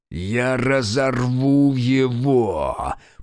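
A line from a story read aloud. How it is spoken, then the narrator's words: Growling. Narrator (Russian): прорычал Фергус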